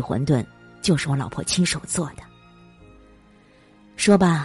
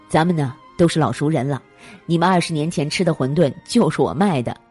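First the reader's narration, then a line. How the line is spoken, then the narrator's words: Smiling. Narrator (Chinese): 张先锋微笑道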